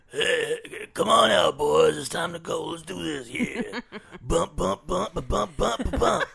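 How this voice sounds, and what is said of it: Little cartoon character voice. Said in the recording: “my impression ... that's my impression of how they sound ... Just the little characters.”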